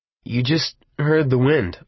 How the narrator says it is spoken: said uneasily

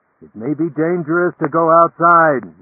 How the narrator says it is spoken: Norton yelled

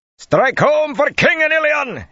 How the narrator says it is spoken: he shouted

